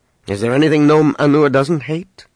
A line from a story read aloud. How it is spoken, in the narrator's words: Leia asked dryly